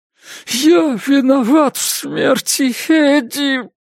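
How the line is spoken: Hoarse wheeze. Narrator (Russian): сипел Джош

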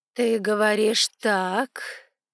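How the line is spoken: Slow speech. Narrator (Russian): сказала Аллегрион медленно

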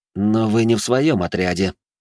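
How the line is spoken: Through clenched teeth. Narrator (Russian): процедил сквозь зубы Жумельяк

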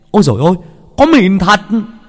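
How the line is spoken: Shouted. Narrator (Vietnamese): có người hét lên

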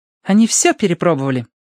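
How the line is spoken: Confirming. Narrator (Russian): подтвердила Верити

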